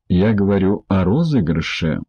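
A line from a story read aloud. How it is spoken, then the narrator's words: Calm. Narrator (Russian): спокойно произнес судья Ди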